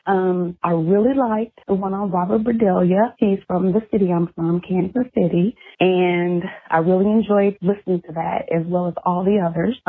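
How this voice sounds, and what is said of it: Breathless, out of breath. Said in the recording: “My heart is beating so fast right now. I'm almost out of breath ... I'm running out of breath ... I'm just out of breath.”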